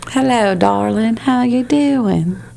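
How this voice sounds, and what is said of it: Put-on southern accent. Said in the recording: “do the southern accent.”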